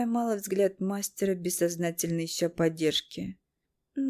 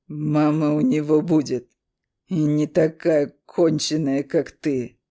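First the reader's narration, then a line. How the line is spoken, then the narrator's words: Growled. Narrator (Russian): рыкнул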